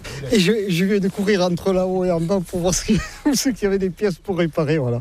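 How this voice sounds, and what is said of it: Southwestern French regional accent. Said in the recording (French): “comme vous l'entendez, je ne suis pas de la région ... Avec mon accent, je ne suis pas du nord de la Loire, non. Je suis des Landes”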